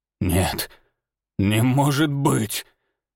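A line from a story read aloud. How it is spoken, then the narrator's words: Hoarse wheeze. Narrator (Russian): прохрипел он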